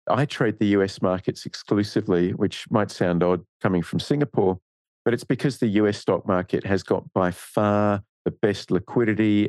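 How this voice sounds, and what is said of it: Australian accent. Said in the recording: “you can probably tell by my accent, I'm Australian”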